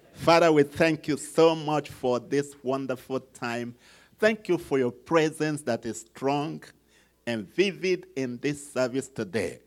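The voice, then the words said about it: Nigerian English accent. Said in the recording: “my accent ... how this guy that is from Nigeria talks”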